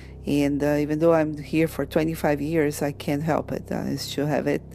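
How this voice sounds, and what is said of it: Brazilian Portuguese accent. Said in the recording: “I am from Brazil. I'm Portuguese descendant, and that's why I have this accent.”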